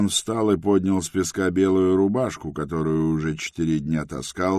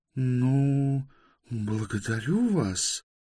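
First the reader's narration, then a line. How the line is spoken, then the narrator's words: Stunned speaking. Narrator (Russian): проговорила ошеломленная Байта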